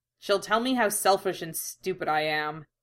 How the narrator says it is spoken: grumbled

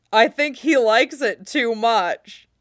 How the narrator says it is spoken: Blitz calls, sounding like he's choking on his laughter

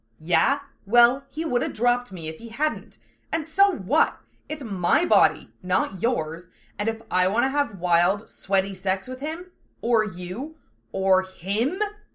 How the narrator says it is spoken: she yelled

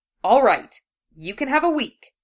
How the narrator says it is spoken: she snapped

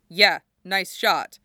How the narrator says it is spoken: Jackson grunts back

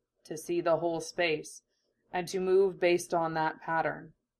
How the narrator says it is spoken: Neji Nissan told her calmly

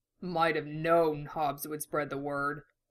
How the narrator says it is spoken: Dom snorted

